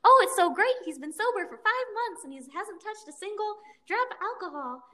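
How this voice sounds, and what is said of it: Impression of Wendy. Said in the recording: “my Wendy impression”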